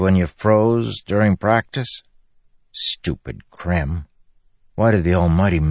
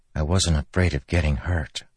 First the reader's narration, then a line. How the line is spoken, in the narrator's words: Cal said softly